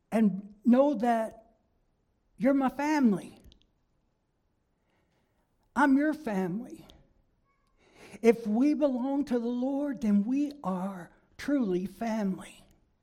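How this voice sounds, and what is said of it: Kentucky Southern American accent. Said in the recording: “I'm from Kentucky. That's my home, where I was born and raised... I'm not going to try to hide my accent”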